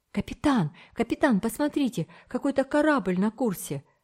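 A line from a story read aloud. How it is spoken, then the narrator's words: Exclamation. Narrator (Russian): воскликнул Томик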